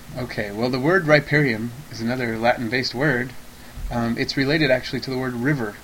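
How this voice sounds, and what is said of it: Speaks with a noticeable accent. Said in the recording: “You love his accent.”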